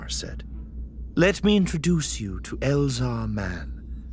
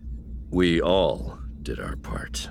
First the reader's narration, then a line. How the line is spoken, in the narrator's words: Elzar murmured